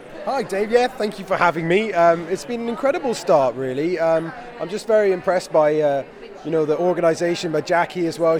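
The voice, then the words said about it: Hoarse, strained voice. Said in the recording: “as you can probably tell, I've almost lost my voice.”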